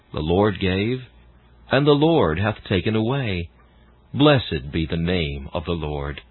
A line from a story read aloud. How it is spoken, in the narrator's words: though tears would come, she gently said